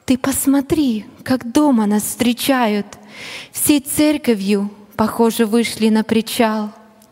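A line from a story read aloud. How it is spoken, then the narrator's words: Delighted, amazed whisper. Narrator (Russian): не скрывая свой восторг и изумленье, миссионер супруге прошептал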